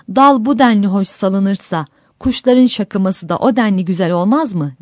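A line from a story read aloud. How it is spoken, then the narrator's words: Exclaimed. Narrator (Turkish): diye haykırmış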